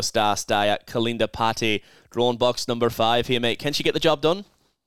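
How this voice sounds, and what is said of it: Brief put-on Irish accent. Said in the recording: “my little Irish accent there with Kalinda Putty ... Yeah, it was good.”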